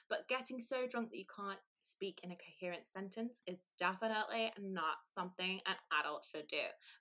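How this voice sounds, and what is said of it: Put-on American accent. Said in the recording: “I have to do it in American accent ... you sound like a Kardashian. That was perfect.”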